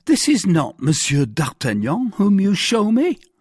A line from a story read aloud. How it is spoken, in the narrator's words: cried Bonacieux